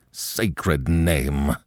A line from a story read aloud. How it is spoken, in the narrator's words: growled a voice behind them